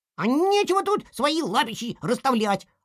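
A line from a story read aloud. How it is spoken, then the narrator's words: Snapped. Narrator (Russian): огрызнулся Торпеда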